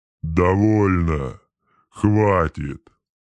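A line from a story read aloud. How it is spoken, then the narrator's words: Roaring. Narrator (Russian): проревел он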